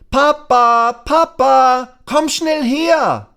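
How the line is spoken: Calling out. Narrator (German): Lasse ruft

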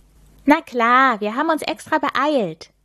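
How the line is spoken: Cheerful reply. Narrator (German): erwidert Milan fröhlich

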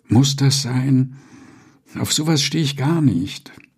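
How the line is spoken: Sighing. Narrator (German): sagte Annette seufzend

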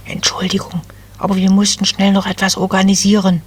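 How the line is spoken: Whispering. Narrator (German): flüsterte eine der Wipfelelfen

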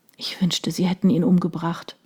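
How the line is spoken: Murmured. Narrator (German): murmelte sie

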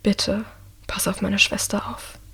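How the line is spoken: Quiet. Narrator (German): sagt Michael leise

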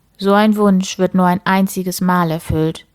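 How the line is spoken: Plain. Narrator (German): sagte der Drache

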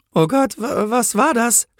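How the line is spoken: Stammering. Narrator (German): stammelte sie

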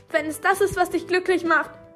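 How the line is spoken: Slightly too loud. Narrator (German): sagte sie dann etwas zu laut

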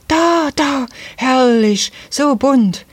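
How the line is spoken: Child calling out. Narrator (German): rief eines der Kinder

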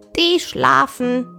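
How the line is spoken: Rooster calling down. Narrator (German): rief der goldene Hahn herunter

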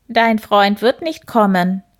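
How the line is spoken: Croaking voice. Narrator (German): krächzte eine Stimme hinter dem Hasen

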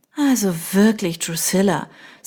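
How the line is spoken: Sighing. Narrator (German): seufzte Beatrice

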